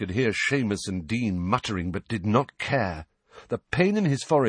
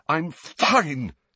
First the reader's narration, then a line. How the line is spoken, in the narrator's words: Harry choked, shaking uncontrollably